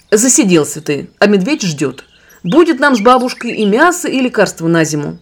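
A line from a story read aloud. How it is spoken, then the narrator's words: Sharp speech. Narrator (Russian): Таня резко сказала Ивану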